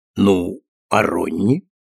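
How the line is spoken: Plain. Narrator (Russian): спросил Франк

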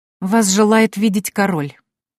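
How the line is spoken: Clipped, through teeth. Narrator (Russian): процедила она

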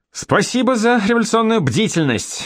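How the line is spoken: Shouted out. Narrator (Russian): выкрикнул Янош

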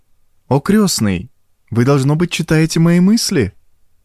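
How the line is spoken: Exclamation. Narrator (Russian): воскликнула Урсула

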